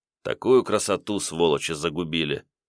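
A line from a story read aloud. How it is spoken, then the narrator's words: Gruff mutter. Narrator (Russian): буркнул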